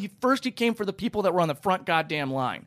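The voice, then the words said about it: Screaming, agitated speech. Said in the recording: “I'll stop screaming.”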